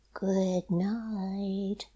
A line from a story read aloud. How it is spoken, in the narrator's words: the pear trees whispered